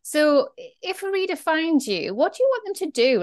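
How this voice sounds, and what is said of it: Speaker's own regional accent. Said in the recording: “They liked my accent”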